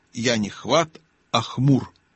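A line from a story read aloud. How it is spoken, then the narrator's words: Shaky objection. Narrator (Russian): нетвердым голосом возразил бродякль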